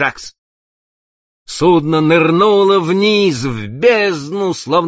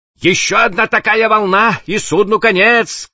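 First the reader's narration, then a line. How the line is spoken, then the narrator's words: Shout. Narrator (Russian): крикнул старший механик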